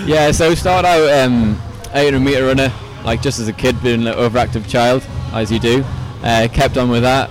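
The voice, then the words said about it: Newcastle English accent. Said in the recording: “why have you got a funny accent? ... my accent's not even that bad, eh? So I'm originally from Newcastle in the UK. ... haven't quite lost the accent.”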